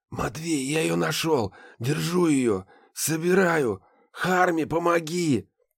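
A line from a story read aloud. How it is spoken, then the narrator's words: Hoarse rasp. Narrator (Russian): прохрипел Ларс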